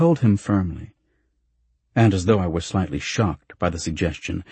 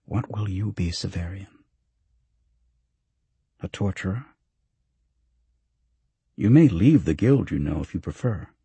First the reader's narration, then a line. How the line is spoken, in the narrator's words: Master Palaemon asked gently